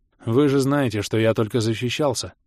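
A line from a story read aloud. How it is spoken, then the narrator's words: Gloomy curt remark. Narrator (Russian): мрачно бросил Адрус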